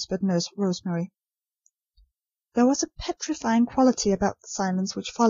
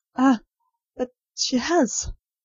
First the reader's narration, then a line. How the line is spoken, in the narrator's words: said Nurse Rosemary, brokenly